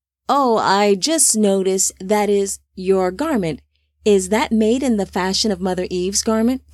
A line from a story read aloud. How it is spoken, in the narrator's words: Tubal Khan asked